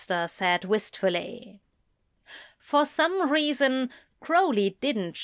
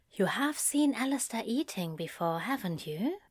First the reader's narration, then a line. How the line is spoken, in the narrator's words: she asked very quietly